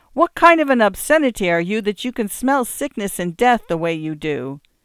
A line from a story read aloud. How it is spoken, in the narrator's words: said again, shouted